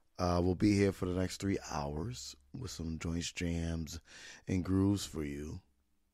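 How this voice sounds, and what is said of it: Raspy voice. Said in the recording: “Voice is still raspy after weeks of being on the mend”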